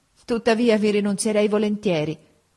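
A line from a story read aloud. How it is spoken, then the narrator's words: Sighing tearful voice. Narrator (Italian): soggiunse poi con un sospiro e una lagrima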